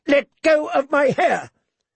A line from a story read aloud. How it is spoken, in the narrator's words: She was shaking, sobbing